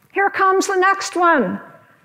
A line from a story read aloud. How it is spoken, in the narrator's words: someone with an aisle seat shouted out